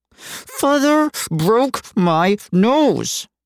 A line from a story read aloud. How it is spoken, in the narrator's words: Frankie said, his voice nasally and muffled behind his hand